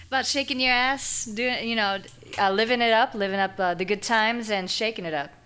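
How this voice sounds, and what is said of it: Exotic foreign accent. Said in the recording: “I like your accent. Are you Italian?... Very exotic.”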